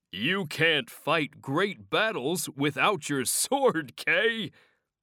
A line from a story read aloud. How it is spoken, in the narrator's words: laughed Sir Ector